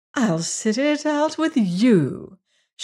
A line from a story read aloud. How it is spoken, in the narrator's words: cried gushingly